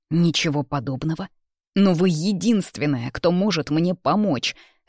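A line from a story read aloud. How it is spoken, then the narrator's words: Barking. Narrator (Russian): рявкнул он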